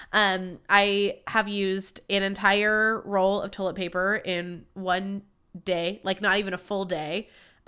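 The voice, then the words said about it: Nasal, congested voice. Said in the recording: “I sound a little nasally. ... we're getting the nasaliness”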